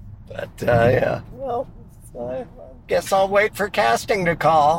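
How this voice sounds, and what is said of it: Usual voice. Nothing is said of it.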